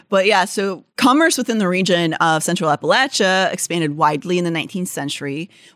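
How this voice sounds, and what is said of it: Regional river-country accent, Valley-girl-like. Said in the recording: “It sounds like if a Valley girl knew how to can. That's exactly what that sounds like, that accent.”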